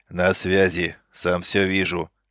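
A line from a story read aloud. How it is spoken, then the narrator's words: Major growling over radio. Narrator (Russian): рыкнул майор на выделенном канале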